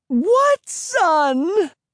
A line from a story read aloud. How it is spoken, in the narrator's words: Emily cried